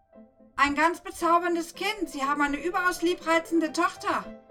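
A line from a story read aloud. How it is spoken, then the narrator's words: Called out. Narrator (German): rief sie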